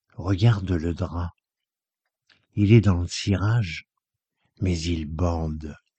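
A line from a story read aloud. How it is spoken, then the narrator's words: Low voice. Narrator (French): lui dit à voix basse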